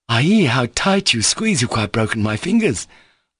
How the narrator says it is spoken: laughed Kalganov

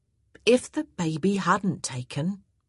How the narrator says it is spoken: Mariah said, a bit more gently

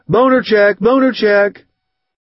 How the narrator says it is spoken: Someone in 311 is yelling

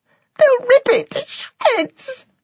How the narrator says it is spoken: Her voice choked

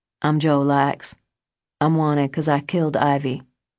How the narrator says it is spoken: Joe ... calmly said

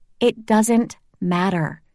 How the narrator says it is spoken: I said slowly

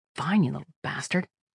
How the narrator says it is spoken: Kira muttered

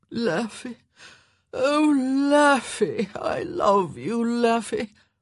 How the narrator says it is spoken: he was moaning

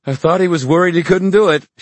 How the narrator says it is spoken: she exclaimed

